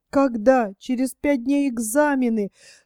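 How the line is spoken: Girl speaking through sobs. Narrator (Russian): сквозь всхлипывание произнесла девушка

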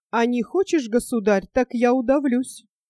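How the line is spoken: Calm. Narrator (Russian): спокойно сказала Мария

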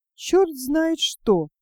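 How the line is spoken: Confused, smiling. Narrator (Russian): растерянно улыбаясь, сказал Толик

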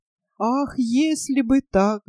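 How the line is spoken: Sad stork. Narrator (Russian): грустно сказал Аист Эрминрих

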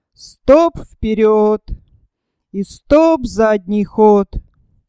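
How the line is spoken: Muffled, into speaking tube. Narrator (Russian): Бородатый капитан глухо говорил в трубку

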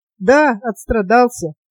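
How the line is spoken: Embarrassed laughing. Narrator (Russian): смущенно засмеялся Тарас

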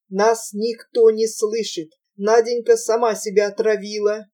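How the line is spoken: Muffled growling voice. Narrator (Russian): глухим каким-то рычащим голосом начал Прохор

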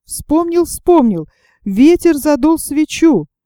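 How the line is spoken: Exclaiming. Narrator (Russian): Том воскликнул

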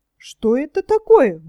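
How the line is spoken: Surprised exclamation. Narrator (Russian): воскликнула Гунилла

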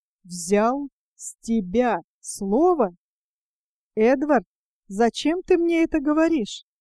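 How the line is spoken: Slow, clipped syllables. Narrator (Russian): Жена, отчеканивая каждый слог, медленно проговорила

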